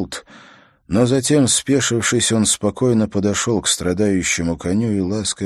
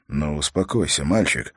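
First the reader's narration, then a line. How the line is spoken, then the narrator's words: Muttered. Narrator (Russian): пробормотал он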